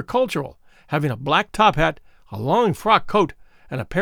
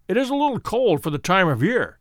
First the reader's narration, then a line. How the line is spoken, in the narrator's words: said Holmes